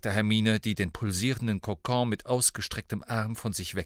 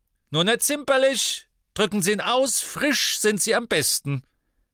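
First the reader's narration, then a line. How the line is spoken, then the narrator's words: Called out. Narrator (German): rief Professor Sprout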